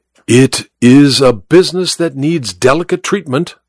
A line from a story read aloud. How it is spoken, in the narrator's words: said Holmes